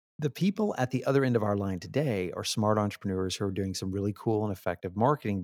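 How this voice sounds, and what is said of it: Texas accent. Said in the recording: “my Texas bred accent”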